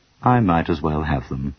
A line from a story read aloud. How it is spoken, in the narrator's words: said sadly